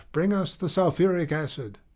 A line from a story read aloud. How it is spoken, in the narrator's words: cried the druggist